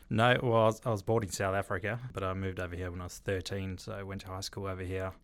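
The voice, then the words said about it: Slight South African accent. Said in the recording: “You got a bit of an accent.”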